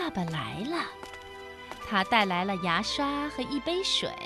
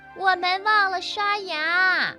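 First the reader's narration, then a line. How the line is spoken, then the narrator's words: Shouting. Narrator (Chinese): 阿尔菲喊道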